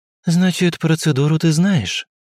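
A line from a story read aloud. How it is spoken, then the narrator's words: Sighing. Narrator (Russian): вздохнув, произнесла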